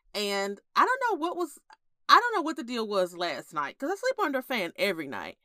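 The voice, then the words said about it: Congested, stuffy voice. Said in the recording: “my tonsils are swollen ... I was super congested. And this morning, I've just been stuffy all day. So, if I sound like a five-year-old, that's why.”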